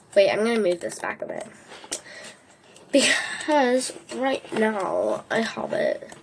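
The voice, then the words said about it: Speaking with an accent. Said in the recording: “Why am I speaking with an accent?”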